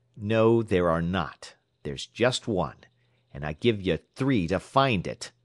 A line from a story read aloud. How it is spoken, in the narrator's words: said the young operator sharply